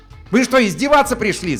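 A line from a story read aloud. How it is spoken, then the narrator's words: Yelled. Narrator (Russian): заорал он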